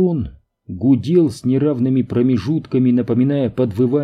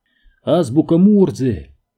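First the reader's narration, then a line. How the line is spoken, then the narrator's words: Exclamation. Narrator (Russian): воскликнул Мэнни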